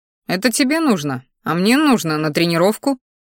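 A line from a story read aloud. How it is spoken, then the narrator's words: Dismissive snort. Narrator (Russian): хмыкнул в ответ, не желая потакать ее капризом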